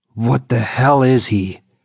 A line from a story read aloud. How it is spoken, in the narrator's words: Ulfric Silverfang growled